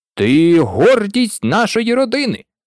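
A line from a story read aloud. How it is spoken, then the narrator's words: Father's proud exclamation. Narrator (Ukrainian): вигукнув тато Ларсон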